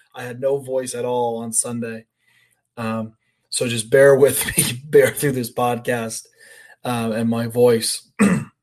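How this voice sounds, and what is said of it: Slightly hoarse voice. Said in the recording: “my voice is a little hoarse ... yelling and screaming like an absolute lunatic”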